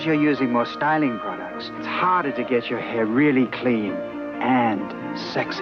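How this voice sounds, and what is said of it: Vague, shifting non-specific European accent. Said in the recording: “His accent is ... fake. ... Weirdly moves around a lot. ... sort of Tommy Wiseau level of non-specific European accent. ... doesn't really sound British.”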